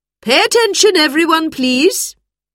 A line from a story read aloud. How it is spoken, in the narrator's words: called out